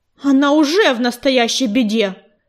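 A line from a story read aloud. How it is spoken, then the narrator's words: Sandstorm growling. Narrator (Russian): прорычала песчаная буря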